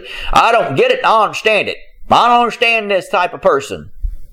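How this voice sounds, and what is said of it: Southern Alabama accent. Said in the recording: “don't you love the accent, folks? But I've been in Alabama too long.”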